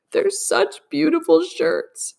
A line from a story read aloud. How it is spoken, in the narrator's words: she sobbed, her voice muffled in the thick folds